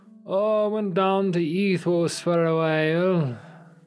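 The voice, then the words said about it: Put-on Scottish accent. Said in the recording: “I don't know why this man has a Welsh accent now. Sorry, Scottish.”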